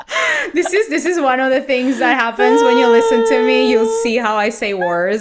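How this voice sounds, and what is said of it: Speaks with a noticeable accent. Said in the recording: “Gritty is my accent. Is my accent.”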